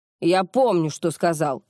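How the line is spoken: Snapping retort. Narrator (Russian): огрызнулся Олег

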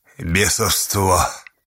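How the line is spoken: Quiet but weighty, old man. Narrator (Russian): Старец Павел тихо, но веско произнес

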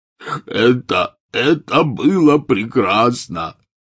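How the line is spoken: Howl. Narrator (Russian): взвыл Хагрид

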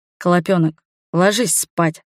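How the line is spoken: Tired. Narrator (Russian): произносит он устало

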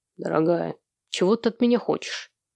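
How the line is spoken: Quiet question. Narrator (Russian): тихо спросил

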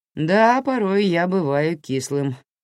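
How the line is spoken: Laughing. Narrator (Russian): в свою очередь рассмеялся он

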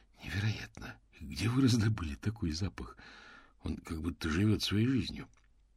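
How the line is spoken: Whispered. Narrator (Russian): Мокриц прошептал

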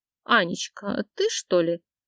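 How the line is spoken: Cooing, then offended grumbling. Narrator (Russian): Заворковала, обиженно заворчала

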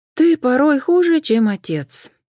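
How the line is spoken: Sighing. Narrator (Russian): вздохнула Джен

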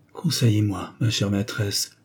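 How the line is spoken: Murmur. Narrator (French): murmura-t-elle

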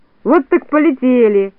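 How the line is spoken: Laughing. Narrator (Russian): засмеялся Микроша

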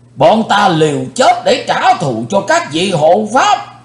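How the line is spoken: Crowd shouting. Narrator (Vietnamese): quần hùng đã quát lên

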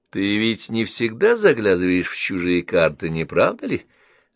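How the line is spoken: Mocking question. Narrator (Russian): спросил он насмешливо

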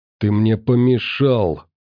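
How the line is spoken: Furious hiss. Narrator (Russian): прошипел он с искаженным от гнева лицом

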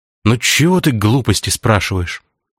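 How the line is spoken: Sighing. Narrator (Russian): вздохнул

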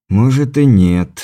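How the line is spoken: Sighing. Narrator (Russian): вздохнул я

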